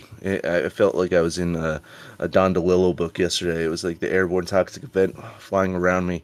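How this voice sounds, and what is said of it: Weak, strained voice. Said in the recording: “my voice is kind of weak. I think I got some of that awful smoke in there”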